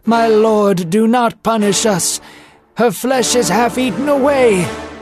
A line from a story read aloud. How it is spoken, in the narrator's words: cried with his face to the floor